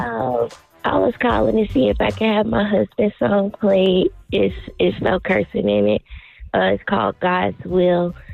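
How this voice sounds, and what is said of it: Raspy voice. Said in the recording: “I just have a raspy voice.”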